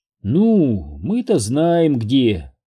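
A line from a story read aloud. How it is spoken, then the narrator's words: Purring. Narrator (Russian): промурлыкала Лизбет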